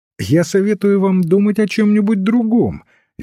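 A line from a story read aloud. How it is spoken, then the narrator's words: Cheerful priest. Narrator (Russian): весело отвечал священник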